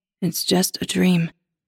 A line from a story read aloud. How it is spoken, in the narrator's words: he says soothingly